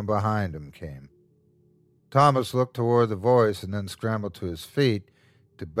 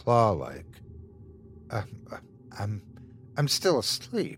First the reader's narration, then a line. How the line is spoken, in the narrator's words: muttered Thomas